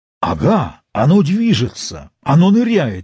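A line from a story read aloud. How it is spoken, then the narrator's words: Exclaimed. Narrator (Russian): воскликнул Нед Ленд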